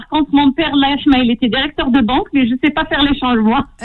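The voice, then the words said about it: Toulouse French accent. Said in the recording (French): “Très joli accent toulousain.”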